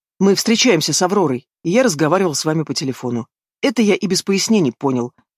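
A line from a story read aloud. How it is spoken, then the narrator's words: Sharp retort, then sigh. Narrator (Russian): резко парирует брат и вздыхает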